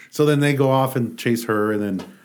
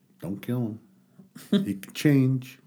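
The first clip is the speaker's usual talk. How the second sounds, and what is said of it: Imitates a TV character's voice. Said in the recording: “That's Morgan right there. Yeah. That's my Morgan impression.”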